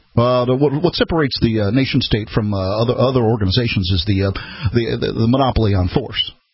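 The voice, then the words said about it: Barack Obama impression. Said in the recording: “do my best Barack Obama imitation”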